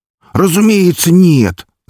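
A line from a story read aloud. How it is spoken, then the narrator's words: Shouting with feigned indignation. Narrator (Russian): закричал Зиртикс с притворным возмущением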